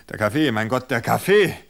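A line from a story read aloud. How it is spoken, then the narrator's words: Half-choked gasping. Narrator (German): keuchte er halb erstickt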